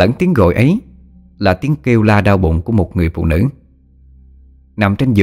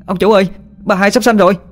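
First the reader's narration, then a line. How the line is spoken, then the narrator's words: Servant's panicked scream. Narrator (Vietnamese): tiếng con người hầu la lên thất thanh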